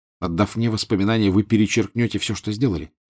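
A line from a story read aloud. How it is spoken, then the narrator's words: Plain. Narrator (Russian): сказал Гарри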